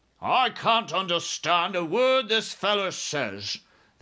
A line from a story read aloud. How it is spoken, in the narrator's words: the head of the army snapped